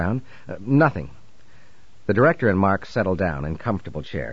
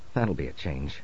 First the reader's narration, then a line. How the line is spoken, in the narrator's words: murmured Mark